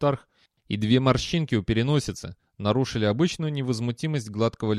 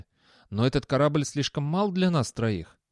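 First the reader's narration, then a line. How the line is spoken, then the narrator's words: Soft. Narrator (Russian): мягко сказала Артемизия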